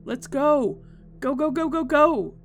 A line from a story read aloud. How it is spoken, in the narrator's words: screamed